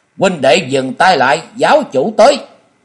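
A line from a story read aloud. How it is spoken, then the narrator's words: Loud shout. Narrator (Vietnamese): Quang Minh Tả Sứ thét lớn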